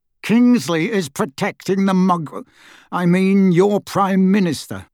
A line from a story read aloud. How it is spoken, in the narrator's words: he said through gritted teeth